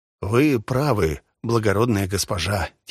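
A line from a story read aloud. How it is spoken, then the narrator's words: Quiet. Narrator (Russian): тихо сказал он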